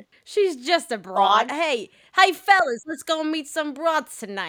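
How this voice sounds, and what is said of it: Put-on old New York accent. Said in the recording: “New York, being like ... Why are you speaking in any accent”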